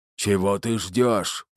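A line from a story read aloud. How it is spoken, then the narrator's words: Deep bass, strained minotaur. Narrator (Russian): пробасил минотавр, с трудом выдерживая напор болтуна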